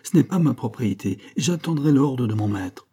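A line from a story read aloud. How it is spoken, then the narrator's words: Exclaimed. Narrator (French): s'écria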